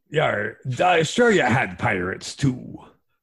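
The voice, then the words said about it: Exaggerated pirate voice. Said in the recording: “why is he talking like a pirate... Why is he talking like a pirate... That's a real accent... I think you're faking it.”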